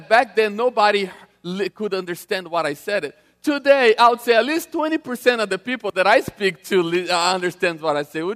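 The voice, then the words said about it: Strong non-native English accent. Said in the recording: “broken English that you know that I speak so well, if you think my accent is bad today”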